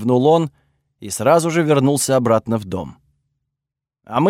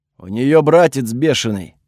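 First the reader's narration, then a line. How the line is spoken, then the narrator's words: Rough male voice. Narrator (Russian): ответили ему мужским грубым голосом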